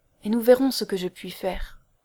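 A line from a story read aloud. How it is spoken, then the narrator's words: Gentle question. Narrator (French): demanda-t-il doucement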